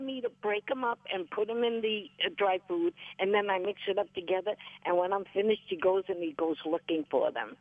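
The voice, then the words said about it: Bronx accent. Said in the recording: “You're never going to get rid of that Bronx accent.”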